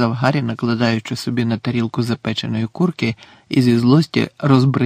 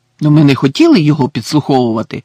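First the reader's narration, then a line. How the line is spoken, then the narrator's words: Indignant exclamation. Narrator (Ukrainian): обурено вигукнув Рон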